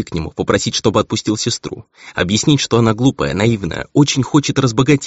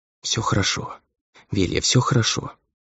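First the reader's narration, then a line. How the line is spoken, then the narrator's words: Whispered. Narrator (Russian): шептала она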